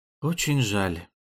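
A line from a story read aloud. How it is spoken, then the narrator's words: Strained voice. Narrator (Russian): повторил он сдавленным голосом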